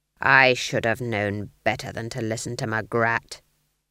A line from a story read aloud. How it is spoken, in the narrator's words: growled Nanny